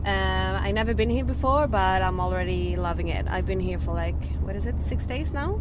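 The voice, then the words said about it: Swedish accent. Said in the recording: “all the way from Sweden ... It's refreshing to have a cosmic accent on the show.”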